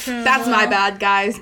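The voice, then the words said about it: Put-on Israeli accent. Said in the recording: “but in an Israeli accent.”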